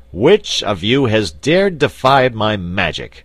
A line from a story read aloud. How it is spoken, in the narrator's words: he shouted in a terrible voice